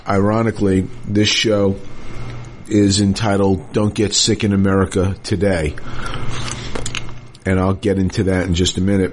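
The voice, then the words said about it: Sick-sounding voice. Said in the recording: “If you can't tell by my voice, I'm a little bit under the weather today”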